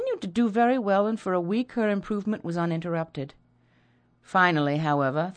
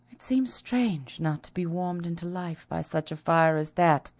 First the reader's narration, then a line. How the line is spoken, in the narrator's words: young woman said, feebly trying to smile